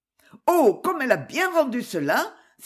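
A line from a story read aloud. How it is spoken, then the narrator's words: Sudden enthusiastic exclamation. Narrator (French): s'écria Rosa avec un soudain enthousiasme pour le talent de la pensionnaire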